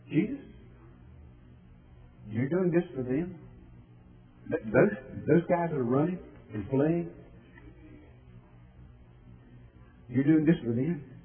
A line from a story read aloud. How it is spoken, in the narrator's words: Satan came to Jesus that evening several times and whispered